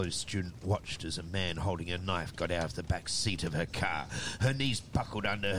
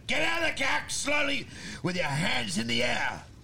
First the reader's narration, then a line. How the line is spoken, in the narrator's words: shouted